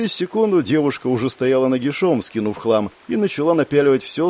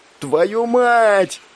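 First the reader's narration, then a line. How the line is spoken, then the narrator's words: Shouted. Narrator (Russian): прокричал я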